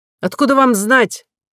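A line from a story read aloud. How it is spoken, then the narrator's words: Exclamation. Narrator (Russian): воскликнул ротмистр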